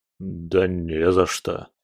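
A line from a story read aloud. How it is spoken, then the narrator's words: Disbelieving mumble. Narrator (Russian): Гвардеец, все еще не веря своим глазам, пробормотал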